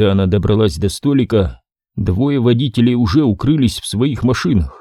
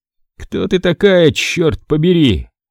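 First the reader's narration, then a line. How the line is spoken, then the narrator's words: Breathed out. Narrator (Russian): выдохнул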